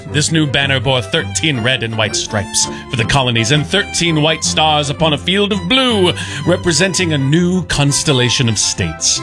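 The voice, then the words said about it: Speaks in a put-on accent. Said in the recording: “Your accent is 10 out of 10.”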